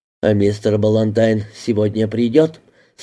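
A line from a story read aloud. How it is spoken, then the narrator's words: Plain question. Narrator (Russian): спросила она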